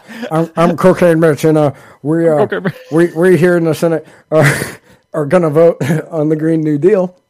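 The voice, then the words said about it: Imitates another person's voice. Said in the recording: “I wish I had a Cocaine Mitch impression ... I'm just trying to do an impression of you telling me he kind of talks like somebody”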